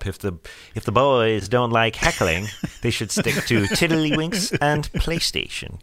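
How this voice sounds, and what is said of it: Imitates another person's voice. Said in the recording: “I can't do a good impression of that guy. ... But not bad.”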